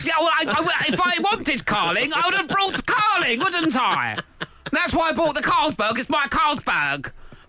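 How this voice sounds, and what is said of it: Imitates another person's voice. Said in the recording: “my Harry Kane impression.”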